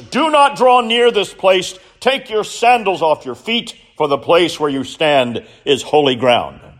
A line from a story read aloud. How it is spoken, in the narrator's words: the word of the Lord came booming out from the midst of the bush